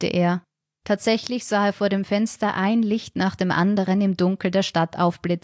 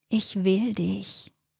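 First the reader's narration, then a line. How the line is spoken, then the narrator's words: Murmured into ear. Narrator (German): raunte ihm Regina ins Ohr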